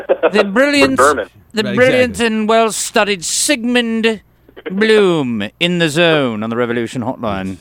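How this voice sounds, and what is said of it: Put-on British accent. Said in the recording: “You should say Sigmund's name with a British accent every time you have him. ... See how much better that sounds?”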